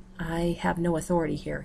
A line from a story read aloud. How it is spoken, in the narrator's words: says quietly